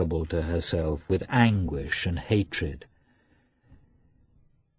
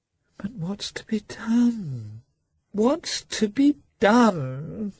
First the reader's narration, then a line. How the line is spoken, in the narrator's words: said he, in a piteous voice, hardly knowing what he was saying